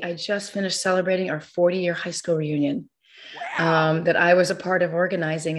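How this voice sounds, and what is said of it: Slightly hoarse voice. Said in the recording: “I'm a little hoarse because, you know, you got to talk to everybody”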